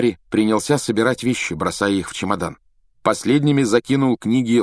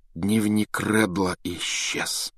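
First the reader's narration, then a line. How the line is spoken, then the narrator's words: Dejected voice. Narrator (Russian): сказал он упавшим голосом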